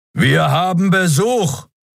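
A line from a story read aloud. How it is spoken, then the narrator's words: Roaring interruption. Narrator (German): Kerus Brüllen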